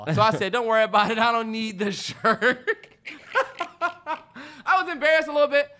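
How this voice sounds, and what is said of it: Laughing and out of breath. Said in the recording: “I'm laughing, but I'm out of breath.”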